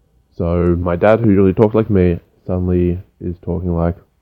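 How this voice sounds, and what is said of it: Usual voice. Nothing is said of it.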